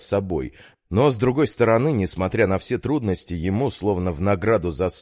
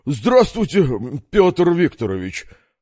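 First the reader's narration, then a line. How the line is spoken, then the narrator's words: Weary reply. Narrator (Russian): ответил тот, устало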